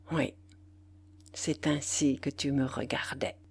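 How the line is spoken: Murmuring. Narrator (French): murmura-t-il

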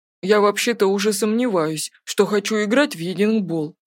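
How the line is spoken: Mumbled. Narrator (Russian): промямлил Треверс

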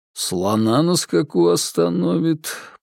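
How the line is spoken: Muttered. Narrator (Russian): пробормотал наконец Сергей

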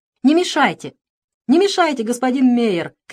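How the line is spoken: Shouting. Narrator (Russian): кричал он

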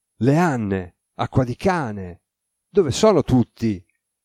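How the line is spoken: Exclaiming. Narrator (Italian): esclamò

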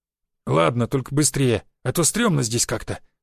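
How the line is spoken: Grumbling mutter. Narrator (Russian): пробурчал

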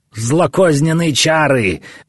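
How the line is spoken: Shout. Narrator (Russian): закричал Гаумата

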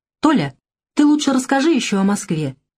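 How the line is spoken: Gentle request. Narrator (Russian): ласково попросила Татьяна

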